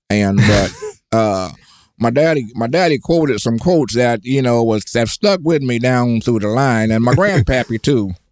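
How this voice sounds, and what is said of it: Distinctive regional accent. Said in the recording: “I love that accent.”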